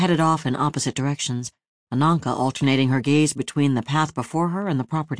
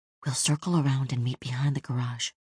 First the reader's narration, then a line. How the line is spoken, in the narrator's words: whispered to Rosario